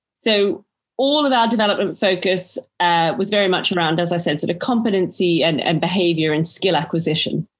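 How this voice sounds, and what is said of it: Slight Australian accent. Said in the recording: “I detect a slight Australian accent in there somewhere”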